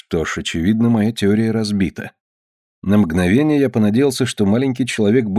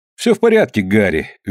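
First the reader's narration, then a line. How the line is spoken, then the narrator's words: Cheerful. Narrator (Russian): весело сказал я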